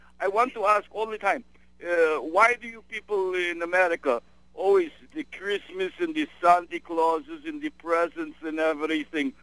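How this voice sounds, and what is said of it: Put-on Russian accent. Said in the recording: “you sound like a Russian emigre ... half Russian and I am half French. But mostly my accent is Russian”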